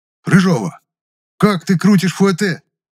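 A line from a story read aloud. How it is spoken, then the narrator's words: Indignant outburst. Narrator (Russian): Возмущенно набросился на Люсю Гудков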